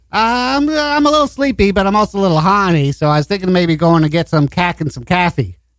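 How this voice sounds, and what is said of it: Put-on Boston accent. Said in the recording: “in a Boston accent, Barb and Bob sound alike”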